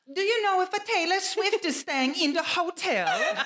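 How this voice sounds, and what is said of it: Terrible put-on Italian accent. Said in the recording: “this is my terrible Italian accent, by the way.”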